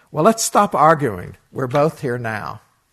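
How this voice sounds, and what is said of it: Very cheerful voice. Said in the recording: “in a very cheerful voice,”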